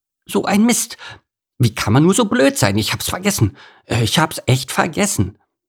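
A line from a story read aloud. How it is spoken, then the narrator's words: Gasping. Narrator (German): japste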